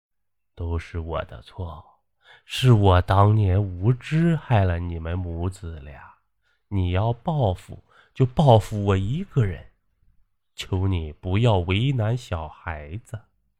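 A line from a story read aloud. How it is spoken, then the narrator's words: Weary murmur. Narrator (Chinese): 奶奶眼中带着无尽的疲倦，口中喃喃地说道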